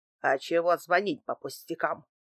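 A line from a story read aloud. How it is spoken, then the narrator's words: Snapping. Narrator (Russian): огрызнулся Дмитрий Иванович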